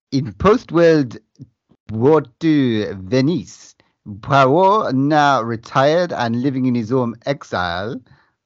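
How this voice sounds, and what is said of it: Poor put-on French accent. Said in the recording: “do this in a French accent ... I think you've offended our French listeners”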